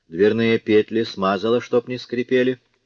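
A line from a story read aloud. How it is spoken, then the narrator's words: Plain. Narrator (Russian): спросил Жондрет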